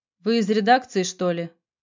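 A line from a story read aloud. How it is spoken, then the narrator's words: Offhand question. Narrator (Russian): спросил он небрежным тоном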